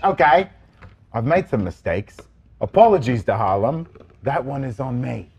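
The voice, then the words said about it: Put-on British accent. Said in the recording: “I gotta get in my English character ... That's me, British.”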